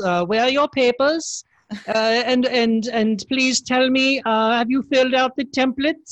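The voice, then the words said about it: Put-on foreign bureaucrat accent. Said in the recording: “even with that accent”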